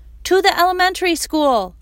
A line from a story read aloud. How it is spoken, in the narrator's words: shouted Mom from behind the truck